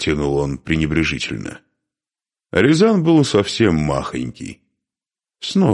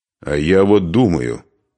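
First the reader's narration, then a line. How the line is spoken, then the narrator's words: Angry interruption. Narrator (Russian): сердито перебил князь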